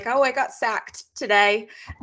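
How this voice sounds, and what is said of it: Poor put-on British accent. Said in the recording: “she switches to like a British accent ... my British accent is horrible”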